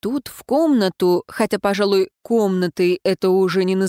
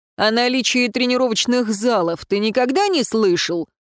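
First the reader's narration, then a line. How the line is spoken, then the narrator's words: Barked. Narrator (Russian): рявкнул Даррен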